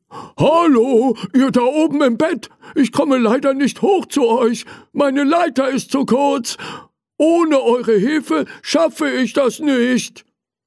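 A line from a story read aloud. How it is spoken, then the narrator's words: Called out. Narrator (German): Er rief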